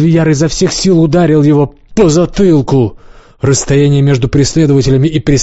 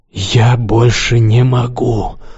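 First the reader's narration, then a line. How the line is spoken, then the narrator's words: Wheezing rasp. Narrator (Russian): прохрипел Лукс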